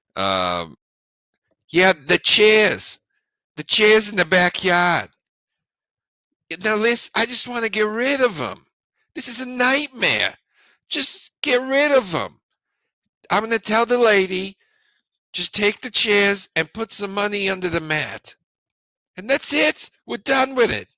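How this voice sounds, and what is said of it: Old Jewish woman accent. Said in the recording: “an old Jew woman working with this accent.”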